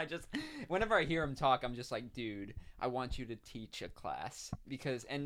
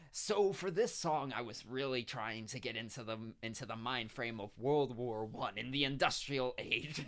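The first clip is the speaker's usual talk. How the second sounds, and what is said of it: Imitates another person's voice. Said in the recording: “my impression of him”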